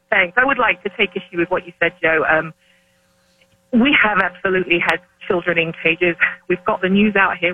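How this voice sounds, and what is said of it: British accent. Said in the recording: “you don't sound like you're from Minnesota. Wait a second. What is that accent? ... a UK person living in America”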